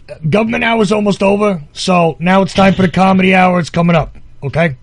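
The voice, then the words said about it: Imitates another person's voice. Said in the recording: “That's my best uncle impression.”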